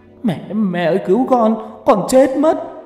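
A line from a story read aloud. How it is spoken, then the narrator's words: Boy screaming, crying while running. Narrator (Vietnamese): Có thằng vừa chạy vừa khóc thét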